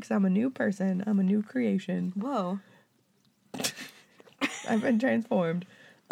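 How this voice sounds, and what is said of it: Hoarse, sore-throat voice. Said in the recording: “tell by my voice, it's different ... I just have like a sore throat.”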